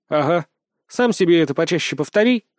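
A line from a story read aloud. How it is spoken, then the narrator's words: Snorting. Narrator (Russian): хмыкнул я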